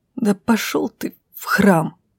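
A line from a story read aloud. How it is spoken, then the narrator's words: Sobbing outburst. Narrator (Russian): Всхлипнув, высказалась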